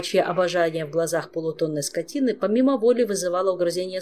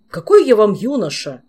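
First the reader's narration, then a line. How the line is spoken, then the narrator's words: Snapping. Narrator (Russian): огрызнулся Кангрим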